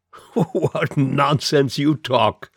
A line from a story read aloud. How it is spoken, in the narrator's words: replied the prefect, laughing heartily